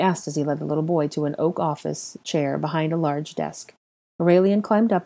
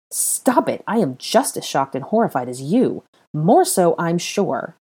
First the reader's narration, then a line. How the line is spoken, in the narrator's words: replied angrily